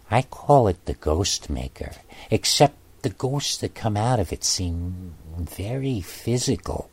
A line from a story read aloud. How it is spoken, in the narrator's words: she leaned in close and said to me quietly